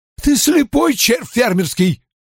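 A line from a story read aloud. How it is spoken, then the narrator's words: Yelling. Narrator (Russian): заорал капитан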